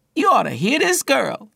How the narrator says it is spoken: he exclaimed to his boss

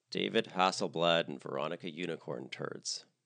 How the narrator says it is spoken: muttered Barbara under her breath

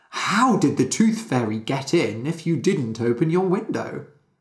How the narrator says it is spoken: Penny laughed

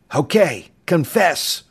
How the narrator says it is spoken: the husky young flyer roared in a jokingly ferocious tone

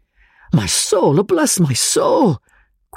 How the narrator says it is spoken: cried the professor, in a state of the extremest bewilderment

